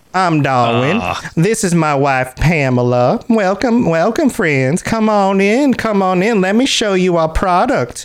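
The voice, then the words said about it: Imitates another person's regional Southern accent. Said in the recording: “Darwin talked like this... like a regional accent?... He was from Northern Florida.”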